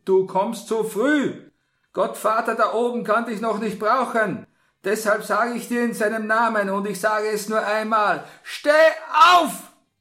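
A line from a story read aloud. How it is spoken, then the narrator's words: Sharp shout. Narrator (German): rief der Pater in scharfem Ton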